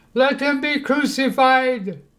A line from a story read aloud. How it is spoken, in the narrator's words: Again, they all shouted